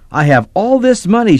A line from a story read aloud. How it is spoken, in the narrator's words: she squealed